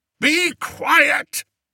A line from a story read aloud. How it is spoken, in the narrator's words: bellowed Spittleworth